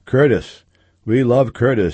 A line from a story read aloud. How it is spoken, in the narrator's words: others cried out